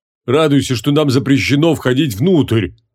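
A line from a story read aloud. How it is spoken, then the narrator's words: Barking shout from outside. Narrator (Russian): рявкнули снаружи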